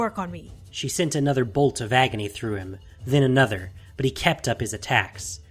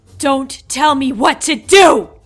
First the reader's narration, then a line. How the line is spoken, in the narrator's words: She shouted